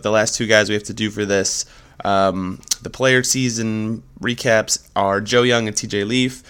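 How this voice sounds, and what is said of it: Stuffy, congested voice. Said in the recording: “I'm also nursing a small sickness, so sorry if I sound a little stuffy.”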